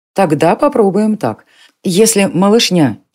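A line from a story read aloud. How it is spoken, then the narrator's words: Giggle. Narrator (Russian): Ирма хихикнула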